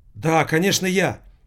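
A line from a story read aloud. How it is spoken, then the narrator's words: Sharp young woman's voice. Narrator (Russian): Голос молодой женщины прозвучал резко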